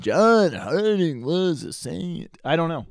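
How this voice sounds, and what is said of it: Imitates another person's voice. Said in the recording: “my Bob Dylan impression”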